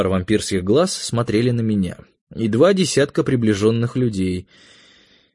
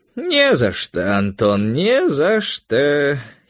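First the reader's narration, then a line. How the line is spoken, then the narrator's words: Old man giggling. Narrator (Russian): хихикнул старичок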